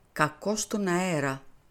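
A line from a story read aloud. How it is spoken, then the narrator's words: Murmured. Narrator (Greek): μουρμούρισε ο Πουαρό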